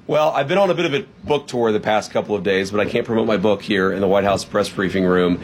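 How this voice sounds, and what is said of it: Hoarse voice. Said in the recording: “your voice is hoarse ... I'm definitely a little bit hoarse”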